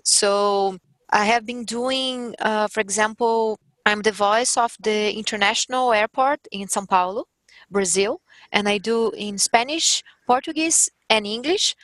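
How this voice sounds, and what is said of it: Strong Brazilian accent. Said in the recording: “I have strong accent ... with a lot of accent, with my accent”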